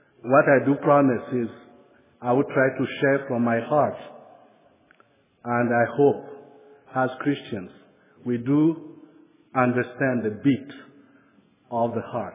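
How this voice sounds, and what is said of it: French accent. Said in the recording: “bear with me my French accent.”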